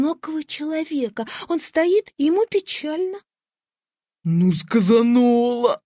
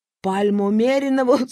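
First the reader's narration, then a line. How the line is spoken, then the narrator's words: Speaking then laughing. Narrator (Russian): сказал Миша Чашин и засмеялся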